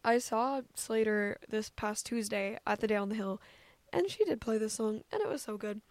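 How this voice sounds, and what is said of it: Slightly hoarse, strained voice. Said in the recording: “I'm honestly kind of losing my voice a bit just from how much I was, yelling and cheering”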